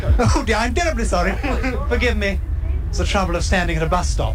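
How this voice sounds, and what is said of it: Posh English accent. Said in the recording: “It must be my accent ... And his accent was, I mean, he's posh, isn't he?”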